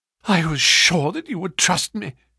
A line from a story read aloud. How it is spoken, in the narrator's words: cried with a great sigh of relief